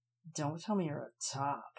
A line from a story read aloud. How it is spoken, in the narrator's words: grunted